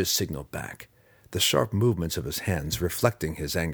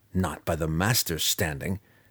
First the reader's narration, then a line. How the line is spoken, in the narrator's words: Drizzt grumbled aloud